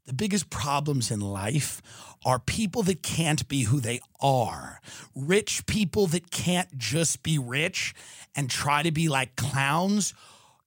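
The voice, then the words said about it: Shifts into a solemn philosophical voice. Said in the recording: “You see how I did that with my voice? That means I'm going to a philosopher mode.”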